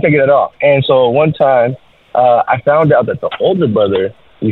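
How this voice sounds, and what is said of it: Usual voice. Nothing is said of it.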